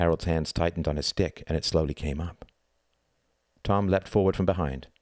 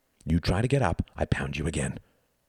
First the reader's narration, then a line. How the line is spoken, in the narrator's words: hissed Tom